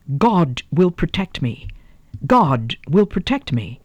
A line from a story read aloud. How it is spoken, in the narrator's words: exclaiming unsteadily